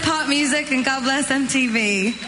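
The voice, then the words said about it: Slight put-on English accent. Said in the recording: “like a little English accent”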